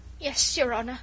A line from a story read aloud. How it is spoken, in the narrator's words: stammered the poor wretch